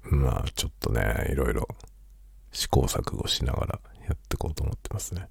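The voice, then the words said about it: Quiet, hushed late-night speaking voice. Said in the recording (Japanese): “深夜の 小声雑談”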